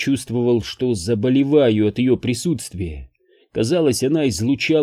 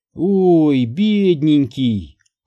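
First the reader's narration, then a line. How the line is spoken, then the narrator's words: Drawled, fake sympathy. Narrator (Russian): протянула она с фальшивым сочувствием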